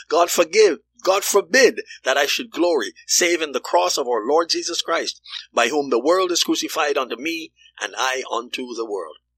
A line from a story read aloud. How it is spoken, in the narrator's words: exclaim